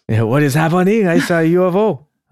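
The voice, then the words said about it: Bad put-on French-Canadian accent. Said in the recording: “this previous really bad French-Canadian accent.”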